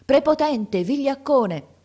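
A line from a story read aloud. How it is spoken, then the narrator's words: Group shouting. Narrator (Italian): gridavano a Franti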